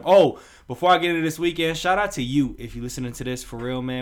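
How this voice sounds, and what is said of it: Slightly raspy voice. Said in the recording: “My voice a little raspy”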